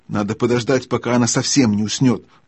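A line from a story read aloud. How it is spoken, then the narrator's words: Whispered. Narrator (Russian): прошептал Юстас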